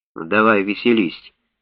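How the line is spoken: Calm. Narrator (Russian): спокойно сказал доктор Шафер

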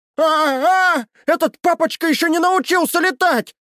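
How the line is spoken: Chubby person yelling from above. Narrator (Russian): Вопило пухлое тело на высоте в десяток метров

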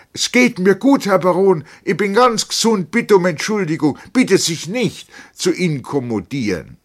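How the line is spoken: Healthy normal voice calling. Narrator (German): mit seiner gesunden, gewohnten Stimme rief er

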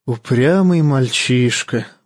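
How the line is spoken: Sighing. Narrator (Russian): вздохнул мейстер

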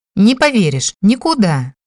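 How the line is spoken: Indignant reply. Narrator (Russian): Возмущенно отозвалась Нори

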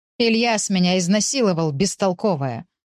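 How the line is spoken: Growling. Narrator (Russian): прорычала Тома

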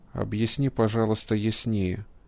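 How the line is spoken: Very quiet request. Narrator (Russian): очень тихо попросил физик

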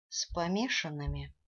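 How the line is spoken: Dejected, embarrassed question. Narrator (Russian): уныло спросила я, чувствуя легкий стыд

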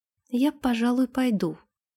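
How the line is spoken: Timid. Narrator (Russian): робко сказала она

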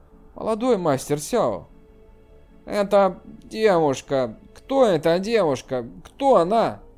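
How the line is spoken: Quiet whisper. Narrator (Russian): тихо прошептав

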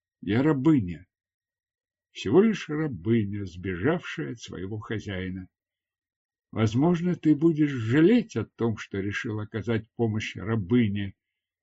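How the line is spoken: Sad. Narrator (Russian): печально добавила

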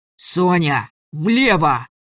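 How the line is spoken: Yelling at full volume. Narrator (Russian): заорал он, что есть мочи

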